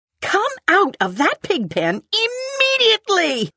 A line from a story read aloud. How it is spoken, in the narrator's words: cried Mrs